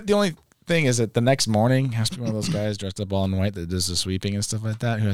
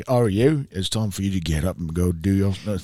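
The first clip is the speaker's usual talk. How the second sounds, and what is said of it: Put-on Cockney accent. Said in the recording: “he just talks to me in like a Cockney accent or something like that”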